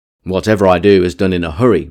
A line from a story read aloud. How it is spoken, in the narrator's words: replied he